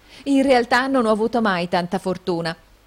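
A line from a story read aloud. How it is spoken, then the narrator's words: Coquettish exclamation. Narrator (Italian): esclamò con civetteria la signorina Price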